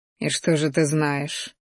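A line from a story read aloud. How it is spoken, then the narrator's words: Quiet question. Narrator (Russian): тихо спросил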